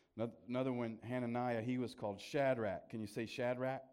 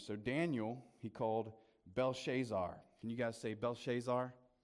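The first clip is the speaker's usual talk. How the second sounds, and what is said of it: Slight twang. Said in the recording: “I might have put a little twang on there a little bit”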